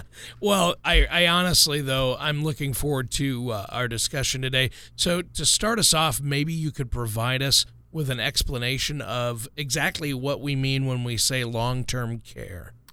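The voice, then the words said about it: Slightly hoarse voice. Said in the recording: “as you can hear from my voice, I woke up a little hoarse”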